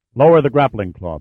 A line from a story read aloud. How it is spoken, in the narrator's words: Pitt said sharply